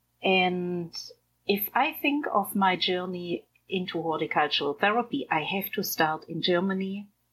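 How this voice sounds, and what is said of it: Soothing voice with German accent. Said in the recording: “accent and your just beautifully soothing voice ... My accent is German”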